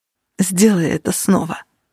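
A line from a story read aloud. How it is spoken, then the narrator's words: Hoarse rasp. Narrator (Russian): прохрипел он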